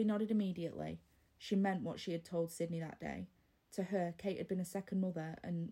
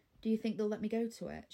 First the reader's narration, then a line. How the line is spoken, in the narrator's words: she asked